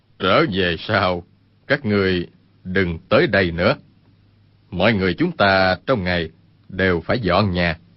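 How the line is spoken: Smiling. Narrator (Vietnamese): Nhất Đăng mỉm cười nói

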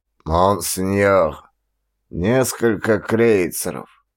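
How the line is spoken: Hoarse unpleasant voice close by. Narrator (Russian): проговорил над моим ухом хриплый неприятный голос

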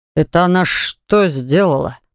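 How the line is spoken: Booming drone in silence. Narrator (Russian): прогудел в тишине комнаты

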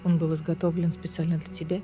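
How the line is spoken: Tender smiling voice. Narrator (Russian): Нежно улыбнулся Кассиан

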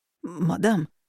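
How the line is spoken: Forced out with difficulty. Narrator (Russian): выдавил он наконец

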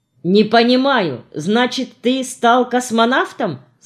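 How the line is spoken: Plain. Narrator (Russian): спросил Женя

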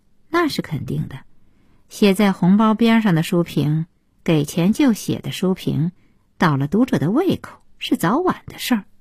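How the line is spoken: Cold retort. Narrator (Chinese): 顾小西冷冷的接茬说

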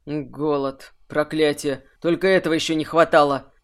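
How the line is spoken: Through gritted teeth. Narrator (Russian): процедил Варик

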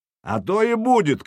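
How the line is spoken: Shouting. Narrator (Russian): крикнул Сергей

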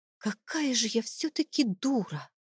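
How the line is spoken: Whispered under breath. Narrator (Russian): прошептала я себе под нос

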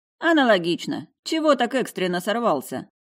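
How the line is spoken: Chuckling. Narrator (Russian): хохотнул Степа

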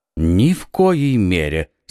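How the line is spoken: Calm. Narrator (Russian): спокойно сказал Атос

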